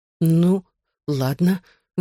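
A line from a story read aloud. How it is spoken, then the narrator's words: Forced out. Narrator (Russian): выдавила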